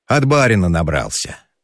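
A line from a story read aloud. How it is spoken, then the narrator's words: Sighing. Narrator (Russian): вздохнул Степан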